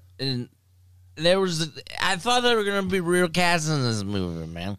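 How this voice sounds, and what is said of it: Drunk-sounding voice. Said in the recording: “your drunk impression”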